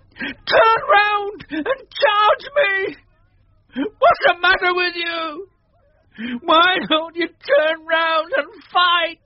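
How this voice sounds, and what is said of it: Strange high voice broken by sobs. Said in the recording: “in a strange, high voice, broken by sobs”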